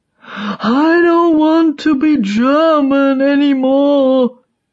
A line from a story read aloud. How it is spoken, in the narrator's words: he sobs